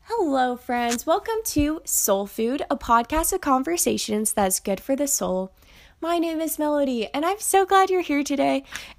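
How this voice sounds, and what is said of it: Nasal, congested voice. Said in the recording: “I sound super nasally ... I've kind of gotten a little bit of a cold”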